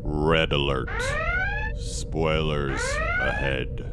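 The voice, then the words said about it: Deep, sexy voice. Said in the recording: “I said that in my deep, sexy voice.”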